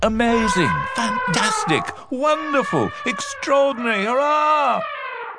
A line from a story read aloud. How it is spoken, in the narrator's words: shouted the elephants